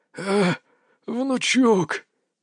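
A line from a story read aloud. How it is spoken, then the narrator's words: Old man's wheeze. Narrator (Russian): прохрипел дед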